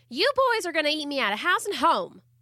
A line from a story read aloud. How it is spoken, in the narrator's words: Amber Lee cried out almost daily